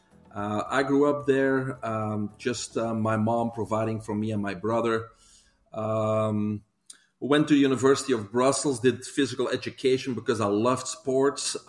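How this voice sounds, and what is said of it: Belgian accent. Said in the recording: “most of your listeners probably can recognize an accent. I'm originally from Belgium ... I guess I'm going to keep that accent.”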